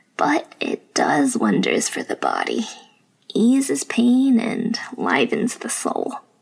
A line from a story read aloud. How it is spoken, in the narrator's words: chuckled